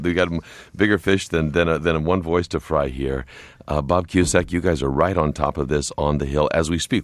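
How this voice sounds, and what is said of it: Hoarse, fading voice. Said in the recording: “As you can hear, I'm losing my voice,”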